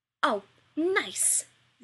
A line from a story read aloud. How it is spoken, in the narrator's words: Rodney splutters